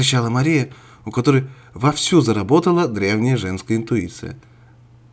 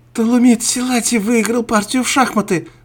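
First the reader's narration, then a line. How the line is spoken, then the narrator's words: Shouting. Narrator (Russian): закричала Мария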